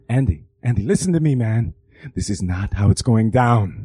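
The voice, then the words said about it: Imitates another person's voice. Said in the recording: “my Jimmy Smits impression ... can you do an impression of Jimmy Smits?”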